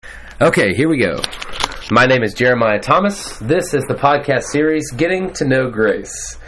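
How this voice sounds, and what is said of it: Polished radio announcer voice. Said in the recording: “It's a good radio voice.”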